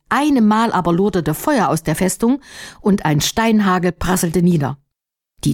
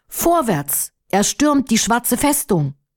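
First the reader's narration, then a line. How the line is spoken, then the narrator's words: Loud rallying call. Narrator (German): Firuz, der tapfere Anführer des Menschenheeres, rief laut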